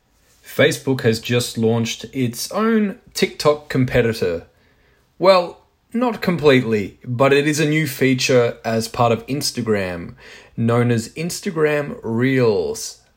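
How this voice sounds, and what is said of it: Goofy accent. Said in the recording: “my goofy accent”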